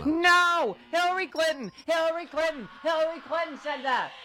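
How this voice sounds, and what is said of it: Yelling. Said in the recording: “Why are you yelling at me?”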